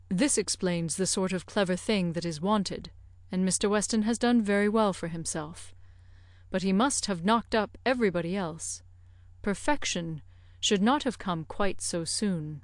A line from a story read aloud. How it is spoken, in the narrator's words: Knightley gravely said